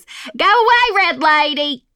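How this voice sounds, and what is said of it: Put-on Southern Natchez accent. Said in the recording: “That's not very Texas... There's the Natchez accent.”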